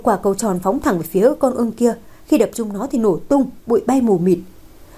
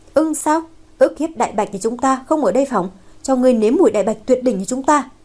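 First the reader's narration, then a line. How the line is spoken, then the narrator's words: Laughing loudly. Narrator (Vietnamese): một người cười lớn nói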